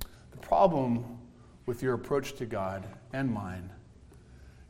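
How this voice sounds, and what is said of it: Usual voice. Nothing is said of it.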